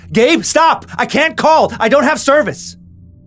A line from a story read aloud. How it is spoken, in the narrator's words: Now he yelled with more urgency